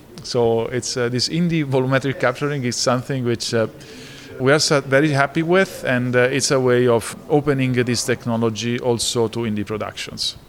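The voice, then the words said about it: Strong Italian accent. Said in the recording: “As you can hear, my accent, it's an indication that I was born in Italy ... my strong Italian accent”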